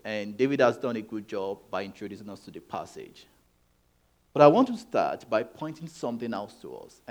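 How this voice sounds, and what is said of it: Speaks English with an accent. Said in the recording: “If you don't understand my accent, I've put most of what I'm saying on the screen”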